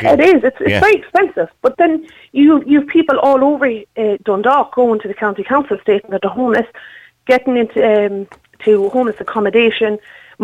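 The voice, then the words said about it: Irish accent, not Dundalk. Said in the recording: “You don't really have a Dundalk accent ... it's not Dundalk”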